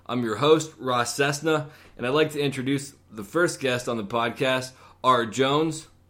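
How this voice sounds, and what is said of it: Polished radio-style speaking voice. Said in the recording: “You have one hell of a radio voice. I would not have expected that.”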